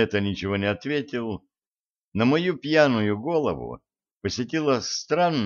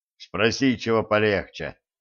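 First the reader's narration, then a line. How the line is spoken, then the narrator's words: Angry muttering. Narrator (Russian): в сердцах пробурчал Гена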